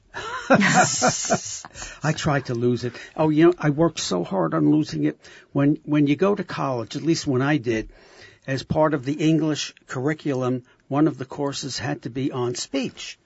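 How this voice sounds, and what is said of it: South Brooklyn accent. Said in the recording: “your accent also from South Brooklyn.”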